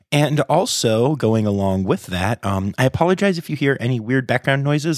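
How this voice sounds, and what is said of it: Raw, deeper voice from a cold. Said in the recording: “my voice is either a little more radio DJ than usual or just a little raw. That's because I have a little bit of a cold.”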